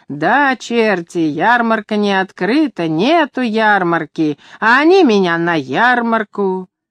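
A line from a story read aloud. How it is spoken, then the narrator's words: Laughing and shouting. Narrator (Russian): она хохотала и кричала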